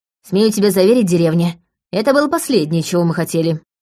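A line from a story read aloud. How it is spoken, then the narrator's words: Snorting chuckle. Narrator (Russian): хмыкнула Лика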